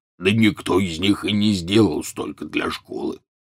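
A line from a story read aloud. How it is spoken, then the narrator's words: Grumbling. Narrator (Russian): проворчал Хагрид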